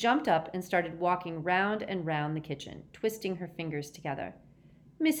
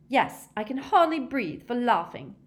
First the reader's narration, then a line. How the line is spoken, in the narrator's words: snapped Hermione